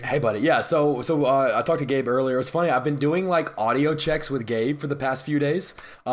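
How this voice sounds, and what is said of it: Hoarse, weathered raspy voice. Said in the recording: “my voice is a little just weathered ... coughing so much that it just completely ripped up my vocal cords ... I sound like hell ... this is the best I have sounded in like a week ... my sexy smoker voice”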